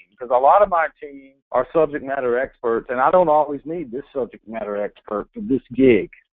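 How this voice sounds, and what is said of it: Eastern North Carolina accent. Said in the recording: “my Eastern North Carolina accent is probably preventing you from understanding what word I'm saying”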